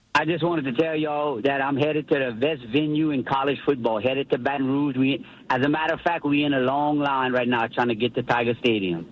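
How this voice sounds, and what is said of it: Strong regional Southern accent. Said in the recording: “I love that accent. ... That accent is amazing.”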